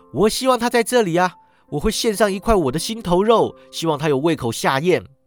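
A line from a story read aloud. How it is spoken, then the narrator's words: Loud. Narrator (Chinese): 克拉奇太太大声说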